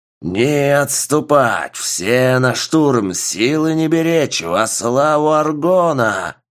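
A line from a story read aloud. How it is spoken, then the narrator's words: Roaring army general. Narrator (Russian): Взревел генерал армии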